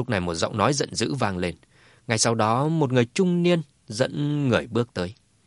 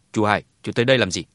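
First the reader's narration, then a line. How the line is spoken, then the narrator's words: Cold. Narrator (Vietnamese): Hà Hùng lạnh lùng nói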